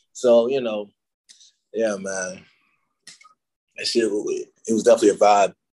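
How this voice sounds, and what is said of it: Deep monotone voice, slight British hint. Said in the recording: “hint of a British accent ... I have this normal, just deep-ass monotone voice”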